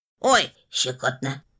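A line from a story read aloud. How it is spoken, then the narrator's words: Robot guffawing. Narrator (Russian): хохотал робот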